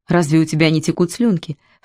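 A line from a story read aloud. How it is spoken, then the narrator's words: Insinuating coaxing question. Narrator (Russian): вкрадчиво спросила Лип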